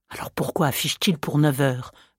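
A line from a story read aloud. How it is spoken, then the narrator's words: Vexed murmur. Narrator (French): murmura Hector, dont la longue figure maigre prit un air vexé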